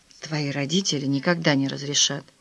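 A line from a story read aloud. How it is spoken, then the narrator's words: Quiet. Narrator (Russian): тихо произнес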